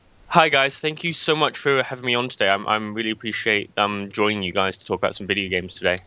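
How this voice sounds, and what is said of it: English accent. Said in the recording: “coming from England ... your wonderful accent”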